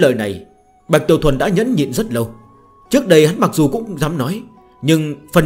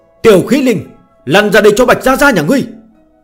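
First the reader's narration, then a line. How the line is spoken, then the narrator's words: Excited loud shout. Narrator (Vietnamese): Bạch Tiểu Thuần phấn chấn, cất cao giọng, hét lớn một tiếng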